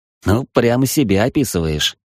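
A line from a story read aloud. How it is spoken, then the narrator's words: Snort. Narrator (Russian): хмыкнул Соколов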